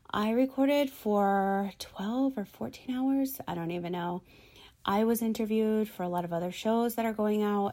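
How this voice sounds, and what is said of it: Slightly raspy, strained voice. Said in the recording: “my voice is getting a little bit raspy ... You're going to lose your voice.”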